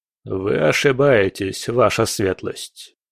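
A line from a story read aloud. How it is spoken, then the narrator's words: Calm. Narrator (Russian): спокойно произнес Волынский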